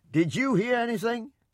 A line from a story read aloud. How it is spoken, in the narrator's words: He shouted to my grandfather